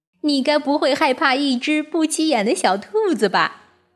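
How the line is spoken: Loud question. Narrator (Chinese): 大声问道

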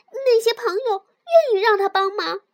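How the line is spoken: Loud shout. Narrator (Chinese): 松鼠大叫

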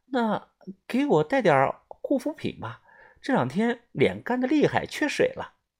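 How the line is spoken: Quiet. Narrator (Chinese): 小声的说道

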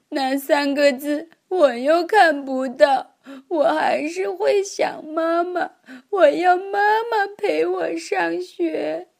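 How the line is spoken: Crying child. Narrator (Chinese): 他哭着说

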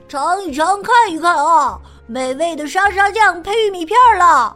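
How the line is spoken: Loud hawking call. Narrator (Chinese): 小帕他大声的吆喝着

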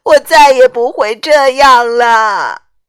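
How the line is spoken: Crying out. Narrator (Chinese): 匹诺丘哭喊着说

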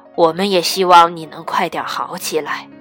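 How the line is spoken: Hoarse little girl. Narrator (Chinese): 小熊妹妹用沙哑的声音说

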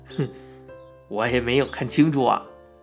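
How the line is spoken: Laughing. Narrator (Chinese): 傻大个儿愣了一下，笑道

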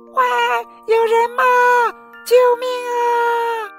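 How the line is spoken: Desperate but faint scream. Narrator (Chinese): 秀珍小姐虽然在拼命尖叫，但是声音也不大

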